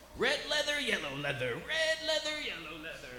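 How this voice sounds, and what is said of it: Hulk Hogan impression. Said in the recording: “I'm gonna do an impression really quick for everybody ... This is my impression of the beloved Hulk Hogan in his locker room getting ready for one of his headlining bouts”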